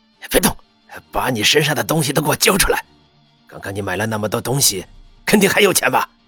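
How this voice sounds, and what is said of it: Quiet, menacing threatening voice. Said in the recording (Chinese): “小声的威胁恶狠狠的响在了温之夏的耳边”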